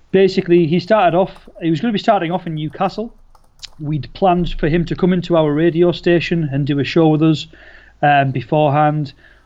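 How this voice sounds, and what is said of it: Newcastle Geordie English accent. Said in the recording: “our hometown of Newcastle ... the really weird accent that we both share”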